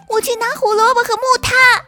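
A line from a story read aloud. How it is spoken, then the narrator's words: Shouting. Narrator (Chinese): 跳跳叫道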